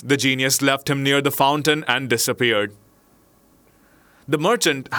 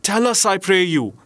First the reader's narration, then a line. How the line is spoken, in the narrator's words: said his wife